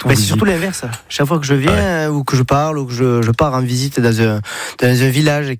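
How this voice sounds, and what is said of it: Sing-song southern French accent. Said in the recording (French): “vous venez pas du nord de la France ... on a l'accent, j'ai le package ... c'est chantant ça ... on me dit, toi t'es du sud”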